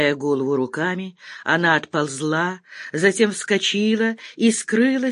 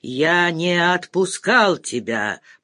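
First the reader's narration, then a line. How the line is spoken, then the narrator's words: Growl. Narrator (Russian): прорычал Грязев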